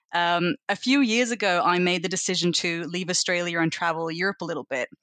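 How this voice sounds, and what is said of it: Australian accent with German mix. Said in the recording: “I think my accent makes people think that I'm more Australian than I am German, but I really do think it's a split.”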